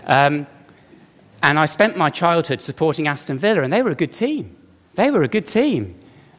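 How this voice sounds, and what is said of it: Birmingham English accent. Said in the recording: “I'm from Birmingham. You can tell from the accent, can't you?”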